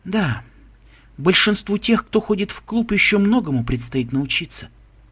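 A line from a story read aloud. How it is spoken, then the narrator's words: Sad agreement. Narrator (Russian): печально согласилась принцесса Селестия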